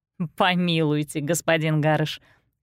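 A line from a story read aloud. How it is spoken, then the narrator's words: Laughing. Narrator (Russian): рассмеялась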